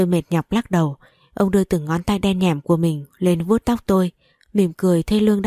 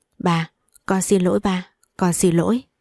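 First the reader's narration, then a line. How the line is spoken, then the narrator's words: Trembling tearful voice. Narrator (Vietnamese): Tôi cố gắng lắm mới không để cho lệ rơi xuống, run run giọng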